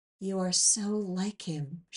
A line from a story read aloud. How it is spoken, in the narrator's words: she said, so softly I almost didn't hear her above the sounds of the brook